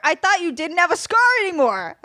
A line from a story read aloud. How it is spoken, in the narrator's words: I shouted